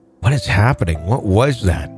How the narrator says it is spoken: my mom whispered

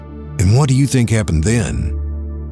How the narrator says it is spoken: the sheriff asked

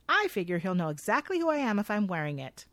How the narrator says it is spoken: Lily happily says

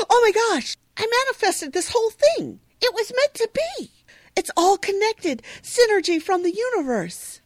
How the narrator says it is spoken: suddenly Jenny exclaims

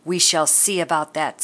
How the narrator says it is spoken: said the baker

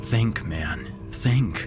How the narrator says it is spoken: he whispered

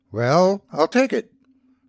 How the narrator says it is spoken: replied Ernest Max, somewhat hesitantly

